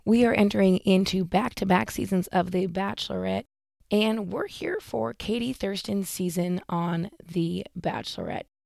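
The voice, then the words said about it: Husky, low allergy-affected voice. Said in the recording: “excuse my voice, still have allergies, still sound like I should be on a 1-900 phone call”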